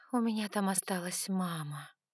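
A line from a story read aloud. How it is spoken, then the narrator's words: Breathless exhale. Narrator (Russian): выдохнула я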